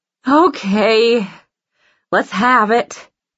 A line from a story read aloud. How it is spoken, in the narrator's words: she sighs